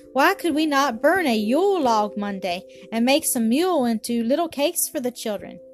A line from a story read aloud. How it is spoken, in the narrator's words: Hannah said almost sharply